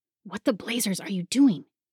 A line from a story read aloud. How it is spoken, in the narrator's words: He hissed